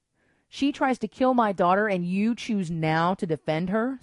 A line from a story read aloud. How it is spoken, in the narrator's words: spat Xena